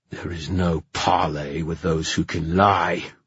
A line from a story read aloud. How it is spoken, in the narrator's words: snarled the king